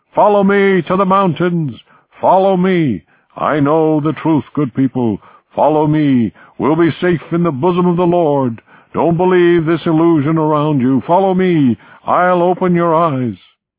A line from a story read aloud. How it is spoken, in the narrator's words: A man called out